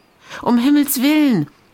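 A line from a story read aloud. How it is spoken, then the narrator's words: Exclaimed. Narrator (German): rief Gesa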